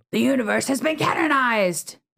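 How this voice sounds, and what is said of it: Villain character voice. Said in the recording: “good villain voice”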